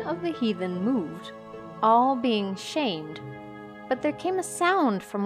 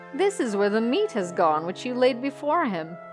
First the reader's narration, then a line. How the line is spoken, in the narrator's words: said Olaf with his loud laugh